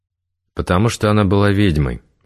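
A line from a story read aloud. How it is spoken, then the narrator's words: Very calm. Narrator (Russian): очень спокойно сказал Игорь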